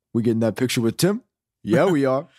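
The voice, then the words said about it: Imitates another person's voice. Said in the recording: “a perfect impersonation”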